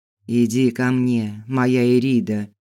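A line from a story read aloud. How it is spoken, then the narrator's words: Said unexpectedly. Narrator (Russian): неожиданно сказал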